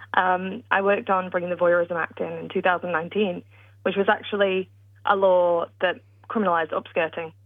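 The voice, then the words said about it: British accent. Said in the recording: “I'm British, as you can tell by my accent”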